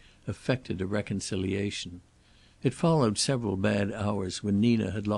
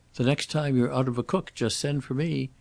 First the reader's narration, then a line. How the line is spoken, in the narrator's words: he said cheerfully